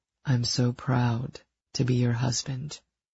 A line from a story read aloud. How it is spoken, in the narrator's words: he said solemnly